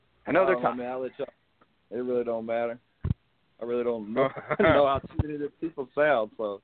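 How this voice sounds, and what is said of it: Slight Southern drawl. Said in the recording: “I hear a tinge of like a southern drawl in your speaking”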